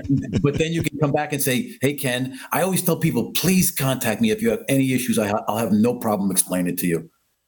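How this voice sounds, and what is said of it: Strong Queens New York accent. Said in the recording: “It's that accent. ... the Tony Soprano. I can't shake it. ... Born in Queens, New York ... this is how we talk. I mean, I can't help myself. I try changing, but I can't.”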